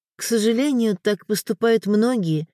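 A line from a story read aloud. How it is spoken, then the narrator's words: Sighing. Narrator (Russian): вздохнула Элеонора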